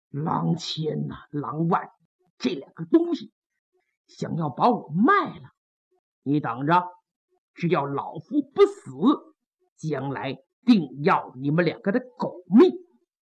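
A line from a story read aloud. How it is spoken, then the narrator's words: Through gritted teeth. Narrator (Chinese): 潘仁美一咬牙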